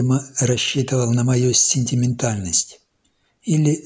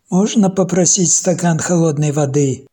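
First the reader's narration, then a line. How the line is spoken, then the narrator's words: Shouting through a door. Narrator (Russian): Он постучал в дверь и крикнул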